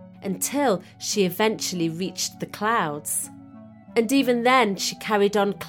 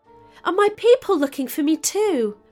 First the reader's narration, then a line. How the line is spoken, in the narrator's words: Moraga asked excitedly